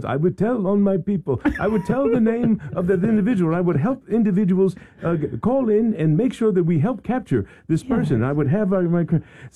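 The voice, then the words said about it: Chadwick Boseman's accented character voice. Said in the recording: “in a voice like yours with an accent”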